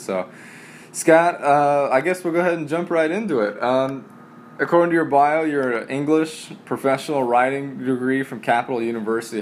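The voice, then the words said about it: Sore, strained voice. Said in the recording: “I apologize for my voice. My throat's been hurting a little bit here in the past couple of days”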